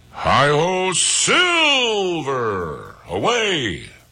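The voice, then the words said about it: Lone Ranger catchphrase impression. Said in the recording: “That was the Lone Ranger, by the way. That's my imitation of the Lone Ranger.”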